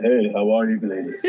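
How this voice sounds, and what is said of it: Put-on sexy voice. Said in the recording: “let me put my sexy voice on”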